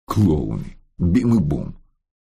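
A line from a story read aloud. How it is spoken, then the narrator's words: Grumble. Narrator (Russian): буркнул он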